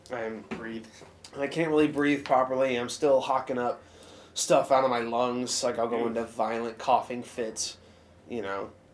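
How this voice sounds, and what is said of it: Congested, stuffed-up voice. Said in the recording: “you sound stuffed up a little bit ... I'm stuffed up”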